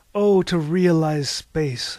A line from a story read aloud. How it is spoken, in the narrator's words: Harvey shouted